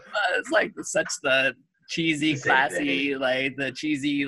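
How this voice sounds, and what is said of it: Usual voice. Nothing is said of it.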